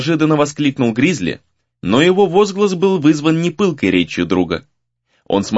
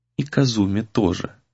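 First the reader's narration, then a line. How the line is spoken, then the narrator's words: Barely audible addition. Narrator (Russian): добавил он едва слышно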